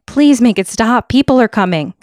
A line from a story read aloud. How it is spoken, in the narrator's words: yelled